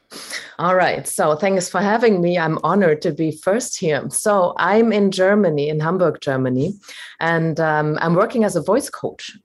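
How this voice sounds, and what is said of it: Non-Australian accent. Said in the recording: “I can tell by your accent already, you are not Australian like me”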